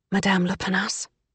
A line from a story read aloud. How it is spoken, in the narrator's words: Emmy whispered